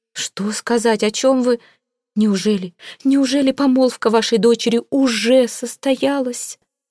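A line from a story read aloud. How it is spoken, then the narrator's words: Babbling. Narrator (Russian): Пролепетала Сивилла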